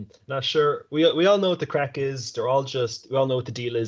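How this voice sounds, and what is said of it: Usual voice. Nothing is said of it.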